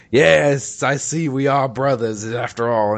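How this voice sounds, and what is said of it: Poor impression of Liquid Snake. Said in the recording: “that's my Liquid Snake impression. It's best bad. ... That's pretty bad.”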